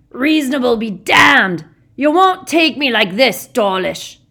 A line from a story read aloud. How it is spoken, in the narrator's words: Hagrid roared